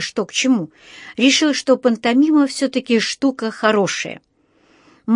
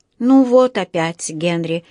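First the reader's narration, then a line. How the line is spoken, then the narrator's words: Sighing. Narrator (Russian): вздохнула миссис Браун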